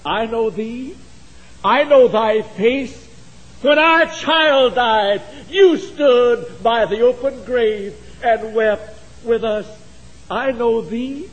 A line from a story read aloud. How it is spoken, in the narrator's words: One cried